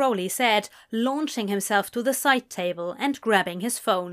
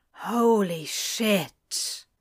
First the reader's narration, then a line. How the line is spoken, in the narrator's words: he breathed